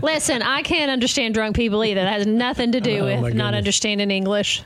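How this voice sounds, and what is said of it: Southern American accent mix. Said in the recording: “Do I have an accent? ... You do, yes. ... Yes, she does. ... I grew up in Arkansas, but I've lived in Tennessee, so who knows? It's just a mishmash of things.”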